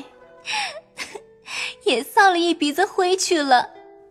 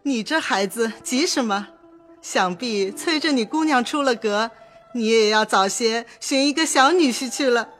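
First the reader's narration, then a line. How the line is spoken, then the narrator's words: Laughing heartily. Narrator (Chinese): 薛姨妈哈哈笑道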